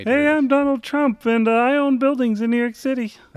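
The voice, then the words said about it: Imitates another person's voice. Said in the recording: “my Donald Trump impression ... that's dead on ... That's a terrible Donald Trump ... That was bang on”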